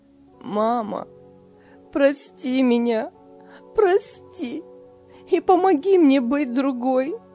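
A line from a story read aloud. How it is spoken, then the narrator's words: Sobbing. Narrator (Russian): рыдала Лиля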